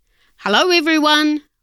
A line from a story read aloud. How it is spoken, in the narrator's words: Waldo called out